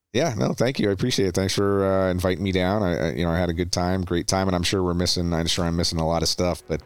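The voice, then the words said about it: Slight Canadian accent. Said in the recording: “do you ever get told that the Canadian accent pops through? ... Yeah, I do all the time.”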